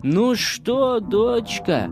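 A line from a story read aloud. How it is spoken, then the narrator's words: Mother calling from afar. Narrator (Russian): Мать, как только издали завидела свою грушу, тотчас же закричала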